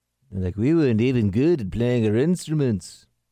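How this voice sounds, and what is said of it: Attempted Liverpudlian accent. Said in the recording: “It's a Liverpudlian accent ... a Liverpudlian accent is a tough thing to pull off ... I'm kind of getting near it, but I'm like 10% of the way there, maybe.”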